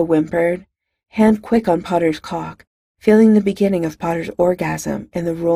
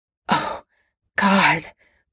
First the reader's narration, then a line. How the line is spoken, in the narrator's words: Potter choked out